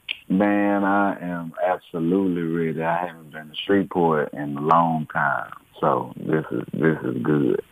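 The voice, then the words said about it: Houston Texas twang accent. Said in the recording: “You representing Houston? You can tell by the twang, I'm sure. they from the H town.”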